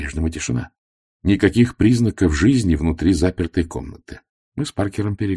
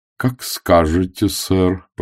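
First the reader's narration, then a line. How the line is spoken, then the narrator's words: Drawled, doubtful. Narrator (Russian): протянул Паркер с некоторым сомнением в голосе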